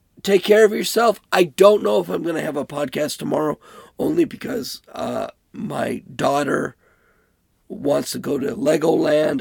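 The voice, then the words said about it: Sick-sounding voice. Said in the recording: “sorry for my voice, but I have COVID”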